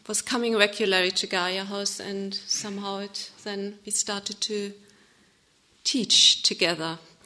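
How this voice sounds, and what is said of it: German accent in English. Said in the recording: “my accent. I'm not from Scotland. Somebody said, are you Scottish? I'm from Germany.”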